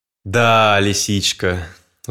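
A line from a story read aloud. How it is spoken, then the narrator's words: Sighing. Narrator (Russian): вздохнул барсук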